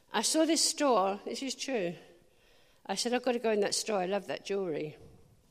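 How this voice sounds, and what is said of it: English accent. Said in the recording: “my accent... English people”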